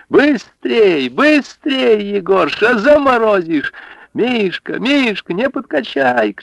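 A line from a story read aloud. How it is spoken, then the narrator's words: Women shouting. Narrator (Russian): кричали бабы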